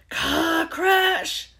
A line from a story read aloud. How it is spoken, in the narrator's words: roared Hagrid, jumping up so angrily